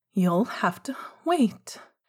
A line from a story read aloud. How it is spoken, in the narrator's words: Remus said tightly